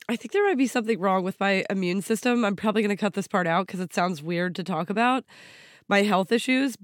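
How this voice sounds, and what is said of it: Scratchy, sick-sounding voice. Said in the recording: “my voice sounds, you know, scratchy and ill ... I came back from it sick”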